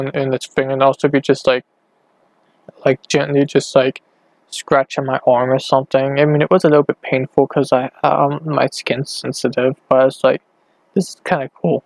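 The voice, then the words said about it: Slightly sore, odd-sounding voice. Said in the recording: “my voice is really weird ... my voice is like a little bit sore”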